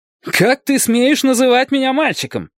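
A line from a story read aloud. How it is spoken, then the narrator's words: Shouted. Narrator (Russian): крикнул Дик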